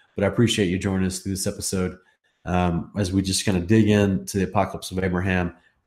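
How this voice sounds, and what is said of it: Slightly weird-sounding voice. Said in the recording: “I've been getting over a really crazy cold. So my voice has been a little weird this week, trying to get back to normal.”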